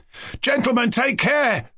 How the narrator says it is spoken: cried Kolya

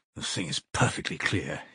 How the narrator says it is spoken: he muttered to himself with a malignant smile

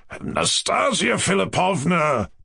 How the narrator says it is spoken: pronounced the general in a persuasive but agitated voice

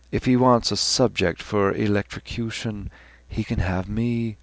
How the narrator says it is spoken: Stephen whispered back with a weary humour

